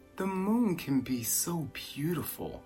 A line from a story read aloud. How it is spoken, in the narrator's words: he whispered with a sigh